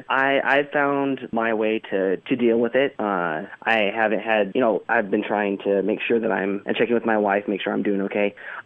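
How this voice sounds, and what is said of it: Hoarse, fading voice. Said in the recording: “losing my voice a little bit”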